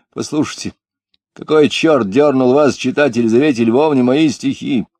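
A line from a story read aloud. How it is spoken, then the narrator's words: Rough, angry. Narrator (Russian): Говорил он грубо, сердито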